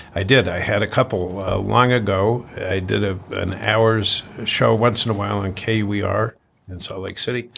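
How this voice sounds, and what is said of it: Polished radio announcer voice. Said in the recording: “I hear a radio voice in there”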